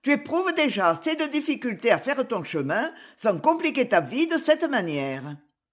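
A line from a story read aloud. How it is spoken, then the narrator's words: Harsh. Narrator (French): dit-elle durement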